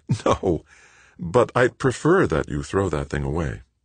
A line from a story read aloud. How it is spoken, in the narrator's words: Laughing, Joanna said